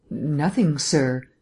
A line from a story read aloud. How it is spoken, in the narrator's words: she answered nervously